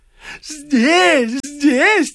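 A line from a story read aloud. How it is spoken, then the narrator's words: Joyful repetition, widow. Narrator (Russian): твердила вдова радостно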